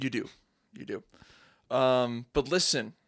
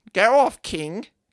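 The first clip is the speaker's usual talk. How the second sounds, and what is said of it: Weird put-on voice. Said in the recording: “You just have to say in a weird voice.”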